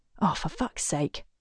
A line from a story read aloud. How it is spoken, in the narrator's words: she mutters